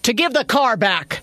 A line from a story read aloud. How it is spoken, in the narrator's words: Maddie yelled